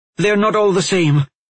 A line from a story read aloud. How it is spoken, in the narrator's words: Aulan blurted